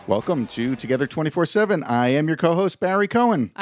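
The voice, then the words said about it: Radio announcer style voice. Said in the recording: “Did I sound good when I said that? ... Did I sound like a radio personality?”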